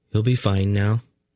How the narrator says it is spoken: Erend said, calmly

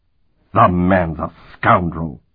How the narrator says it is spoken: Worgen growled

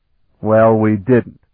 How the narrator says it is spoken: Sparhawk said flatly, forcing back his own disappointment and frustration

